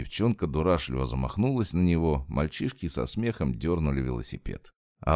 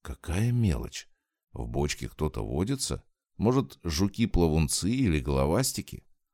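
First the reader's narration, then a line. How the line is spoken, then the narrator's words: Plain. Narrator (Russian): Он спросил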